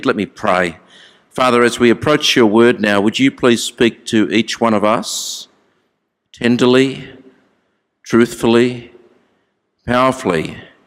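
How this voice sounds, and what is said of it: Australian accent. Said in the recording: “I don't really speak English, as you know. I just speak Australian.”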